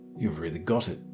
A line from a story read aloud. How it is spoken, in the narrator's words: he cried eagerly